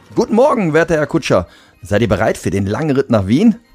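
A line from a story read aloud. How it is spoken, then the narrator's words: Cheerful address. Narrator (German): sprach Martin ihn fröhlich an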